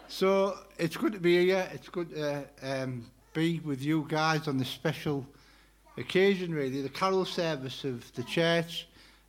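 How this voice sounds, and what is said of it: Speaks with a noticeable accent. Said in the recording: “you don't understand my accent.”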